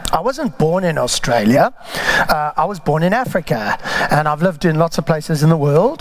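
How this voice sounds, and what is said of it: Non-Australian foreign accent. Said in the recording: “you can probably tell from my accent that, in fact, I'm an immigrant”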